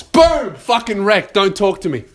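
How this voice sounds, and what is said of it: Loud shouting. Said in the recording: “I hope the neighbors can't hear me. ... that I'm yelling too much”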